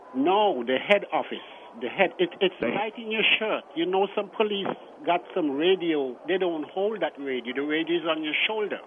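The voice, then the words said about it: Very thick St. Thomas accent. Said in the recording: “your very thick St. Thomas accent ... your St. Thomas accent”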